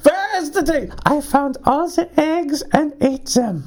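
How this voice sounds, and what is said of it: Unconvincing attempt at German accent. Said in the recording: “that's not even a German accent.”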